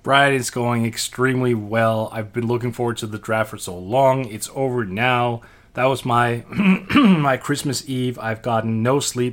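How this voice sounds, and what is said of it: Hoarse, worn-out voice. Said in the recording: “My voice is shot ... I'm going to cough all the way through this because I'm shot to hell”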